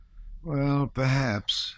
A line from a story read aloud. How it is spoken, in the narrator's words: said he with a sigh